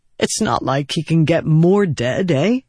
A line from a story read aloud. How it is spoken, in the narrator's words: he said, then chuckled awkwardly